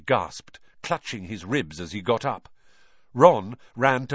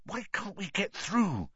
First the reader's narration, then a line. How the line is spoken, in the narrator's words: Harry hissed to Ron